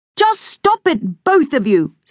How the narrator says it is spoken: snapped Bum

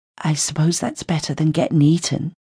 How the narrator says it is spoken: muttered Dorothy from behind me

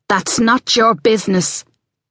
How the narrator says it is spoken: Ali said fiercely, forgetting her momentary terror

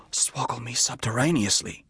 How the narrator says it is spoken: murmured

